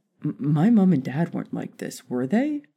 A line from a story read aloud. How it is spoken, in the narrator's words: Harry asked anxiously